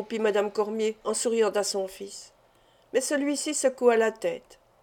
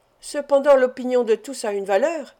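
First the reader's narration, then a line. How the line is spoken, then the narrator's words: Exclamation. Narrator (French): s'écria Félix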